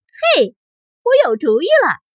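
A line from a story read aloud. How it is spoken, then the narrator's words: Sudden shout. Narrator (Chinese): 乔突然喊道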